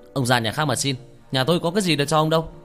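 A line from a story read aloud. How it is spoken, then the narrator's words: Shout. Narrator (Vietnamese): Nó quát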